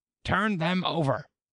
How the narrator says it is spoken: The queen turned angrily away, and said

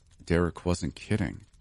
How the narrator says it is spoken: I mumbled under my breath

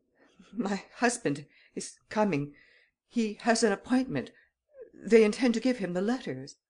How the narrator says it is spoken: She was faint and nervous, and in a stammering voice she ejaculated

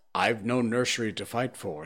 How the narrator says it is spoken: said Kotick

